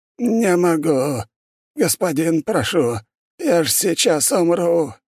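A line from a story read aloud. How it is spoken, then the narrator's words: Old man wheezing. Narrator (Russian): хрипел старик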